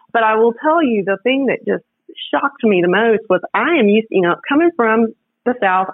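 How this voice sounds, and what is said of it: Southern Louisiana American accent. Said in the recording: “the girl from small town Louisiana ... they love my accent ... they love my accent”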